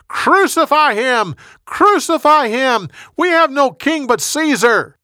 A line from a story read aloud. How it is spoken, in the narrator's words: They shouted louder and louder